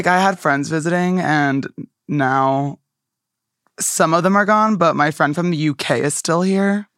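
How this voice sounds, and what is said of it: Hoarse, strained, worn-out voice. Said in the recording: “lost my voice because I did my daily scream today, but, my voice has been, shot recently.”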